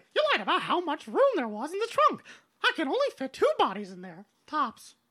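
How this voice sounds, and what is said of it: Mickey Mouse cartoon character voice. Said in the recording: “Mickey Mouse accent ... really good at that ... Was a really good Mickey Mouse accent”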